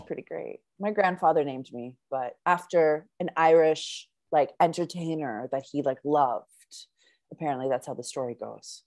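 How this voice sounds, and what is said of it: Canadian accent. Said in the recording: “my like Canadian accent”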